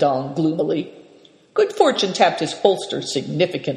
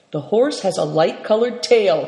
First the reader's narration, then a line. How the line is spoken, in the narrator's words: cried Seven Stars